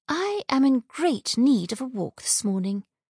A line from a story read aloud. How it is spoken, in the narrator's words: she said, forcing her voice to be cheerful